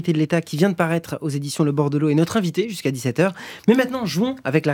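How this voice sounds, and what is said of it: Usual voice. Nothing is said of it.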